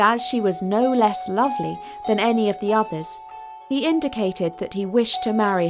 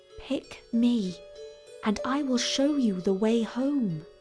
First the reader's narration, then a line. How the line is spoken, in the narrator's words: one of the daughters whispered to him